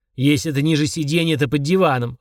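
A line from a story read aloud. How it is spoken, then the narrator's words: Barked. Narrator (Russian): рявкнул Фрундарок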